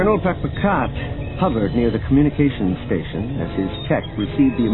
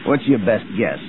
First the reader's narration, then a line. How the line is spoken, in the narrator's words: he asked